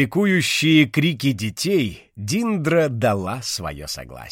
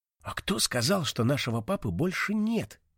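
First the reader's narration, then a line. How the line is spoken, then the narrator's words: Quiet whisper. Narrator (Russian): тихо шепнул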